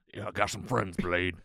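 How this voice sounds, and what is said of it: Imitates a film character's voice. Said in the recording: “You got to do the voice.”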